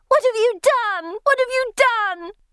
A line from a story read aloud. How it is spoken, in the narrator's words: She screaming